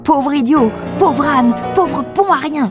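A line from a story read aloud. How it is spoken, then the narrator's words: Screaming. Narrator (French): hurla-t-elle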